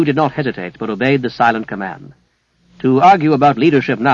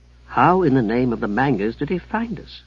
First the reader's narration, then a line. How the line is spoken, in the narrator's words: Haplow muttered